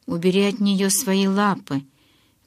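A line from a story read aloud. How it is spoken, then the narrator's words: Grim reply. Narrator (Russian): мрачно ответил Эдвард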